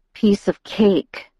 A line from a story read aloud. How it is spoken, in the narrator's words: I mumbled tonelessly against his chest